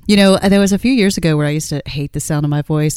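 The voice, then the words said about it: Low-pitched sexy female voice. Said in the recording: “You sound so sexy every time you say that ... my sexy voice ... it's a little bit lower in tone”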